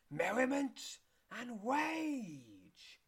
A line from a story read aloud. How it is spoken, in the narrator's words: wails the painted egg